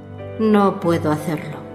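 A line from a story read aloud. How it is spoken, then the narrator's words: Frustrated murmur. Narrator (Spanish): murmuró con frustración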